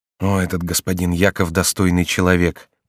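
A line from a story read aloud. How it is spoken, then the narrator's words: Whispered. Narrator (Russian): прошептал Корнелий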